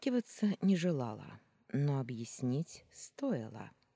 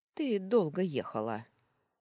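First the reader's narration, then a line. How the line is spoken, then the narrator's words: Rude remark. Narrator (Russian): грубо заметила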